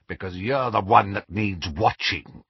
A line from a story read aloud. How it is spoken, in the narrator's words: growled Moody